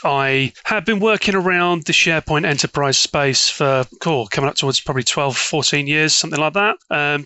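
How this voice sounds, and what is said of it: British English accent. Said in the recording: “as people can tell by your accent, you're not from America... I'm one of those lonely Brits, I'm afraid, from over the pond.”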